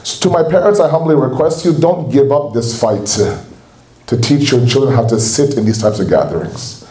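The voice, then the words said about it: Canadian accent. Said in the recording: “I know I have a Canadian accent”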